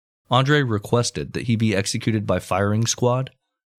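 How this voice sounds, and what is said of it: Usual voice. Nothing is said of it.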